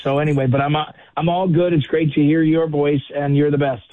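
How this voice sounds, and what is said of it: Strained voice, losing voice. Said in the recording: “I'm losing my voice because I'm not in game. I'm not in game shape like you are... I'm losing my voice.”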